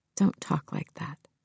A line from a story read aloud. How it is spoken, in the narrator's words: Georgie whispered